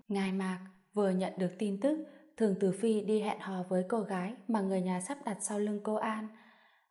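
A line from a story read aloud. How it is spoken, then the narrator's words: Whispering into ear. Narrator (Vietnamese): Trương Húc khẽ nói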